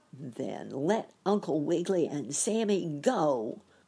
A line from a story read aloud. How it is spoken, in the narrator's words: cried the pinching bug